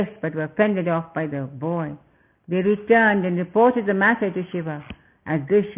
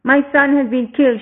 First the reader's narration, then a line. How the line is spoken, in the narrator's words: cried